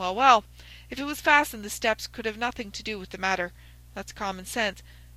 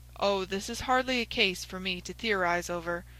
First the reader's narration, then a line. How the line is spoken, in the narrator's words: said Holmes dryly